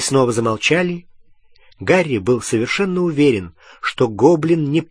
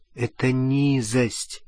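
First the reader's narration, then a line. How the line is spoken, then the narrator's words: Quiet. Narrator (Russian): тихо сказала она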